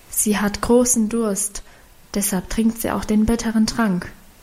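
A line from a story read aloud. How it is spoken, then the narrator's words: Whispered explanation. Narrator (German): erklärte flüsternd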